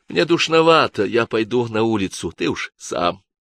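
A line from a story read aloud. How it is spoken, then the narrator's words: Quiet. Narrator (Russian): произнесла тихо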